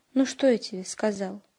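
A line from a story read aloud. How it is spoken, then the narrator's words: Sad wry chuckle. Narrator (Russian): грустно усмехнулся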